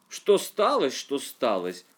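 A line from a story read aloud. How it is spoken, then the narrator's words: Old man exclaiming. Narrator (Russian): воскликнул старик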